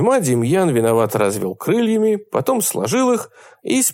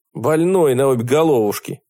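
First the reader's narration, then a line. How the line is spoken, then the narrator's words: Grumbled. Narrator (Russian): проворчал Костя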